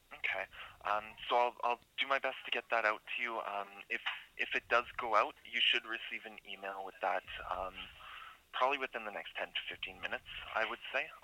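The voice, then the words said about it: Canadian accent. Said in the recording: “Do I hear an accent? Are you in Canada?”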